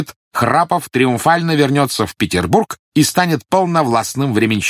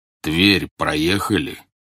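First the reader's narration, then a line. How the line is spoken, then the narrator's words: Deep-voiced question. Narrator (Russian): густым голосом спросил генерал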